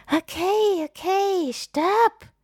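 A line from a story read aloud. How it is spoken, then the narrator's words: Panting. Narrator (German): keucht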